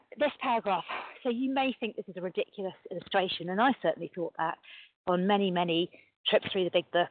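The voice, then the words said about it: Out of breath, breathless speech. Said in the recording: “bit out of breath. I'm on my bike.”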